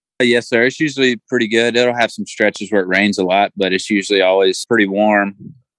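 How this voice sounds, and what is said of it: Southern US accent. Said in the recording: “I think we can tell from your accent, you're from the South, you're from Alabama.”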